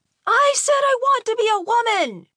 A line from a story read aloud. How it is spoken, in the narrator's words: Malcolm screamed as loud as he could